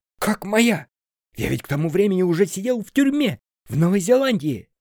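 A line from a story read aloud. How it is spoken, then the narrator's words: Yelling. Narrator (Russian): заорал Сеня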